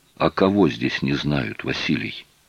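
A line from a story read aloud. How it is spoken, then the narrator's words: Dull, muffled voice. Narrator (Russian): глухо сказал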